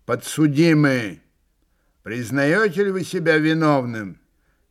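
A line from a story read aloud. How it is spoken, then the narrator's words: Loud, imposing question. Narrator (Russian): председатель громко и внушительно спросил Митю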